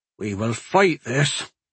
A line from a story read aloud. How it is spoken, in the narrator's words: he said weakly, feeling he had to say something